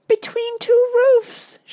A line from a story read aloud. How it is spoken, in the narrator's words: yelped